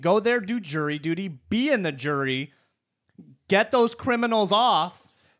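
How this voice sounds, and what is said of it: Yelling angrily. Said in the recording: “why are you yelling? Why are you yelling?”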